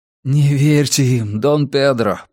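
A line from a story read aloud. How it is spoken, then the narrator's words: Moan. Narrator (Russian): простонал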